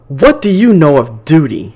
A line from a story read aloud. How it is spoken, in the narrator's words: Chase yells